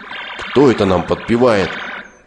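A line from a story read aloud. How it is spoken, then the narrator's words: Plain. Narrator (Russian): спросил слон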